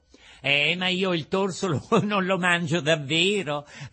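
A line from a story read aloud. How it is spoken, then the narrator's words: Angry shout. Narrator (Italian): gridò il burattino, rivoltandosi come una vipera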